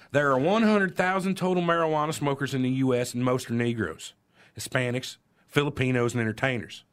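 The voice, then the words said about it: Put-on Southern accent. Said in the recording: “I'm gonna put on an accent here. I don't know how he sounds, but I want to say it differently. ... Southern.”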